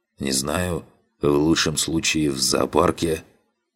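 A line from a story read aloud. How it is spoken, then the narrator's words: Hoarse rasp, bloodied mouth. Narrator (Russian): С трудом сглотнул, сплюнув очередную порцию крови из прокушенного языка, прохрипел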